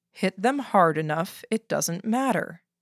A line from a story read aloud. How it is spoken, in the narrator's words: he said, calmly